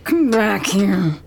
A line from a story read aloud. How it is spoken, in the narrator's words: groans